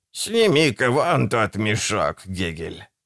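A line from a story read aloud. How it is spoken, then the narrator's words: Tired witch's voice. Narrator (Russian): устало сказала ведьма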